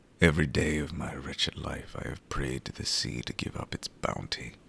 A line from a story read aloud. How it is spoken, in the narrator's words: he mutters